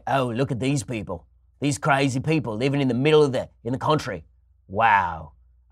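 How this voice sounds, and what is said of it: Rough put-on Australian accent. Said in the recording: “I don't even know what accent that was, but it's sort of an Australian accent.”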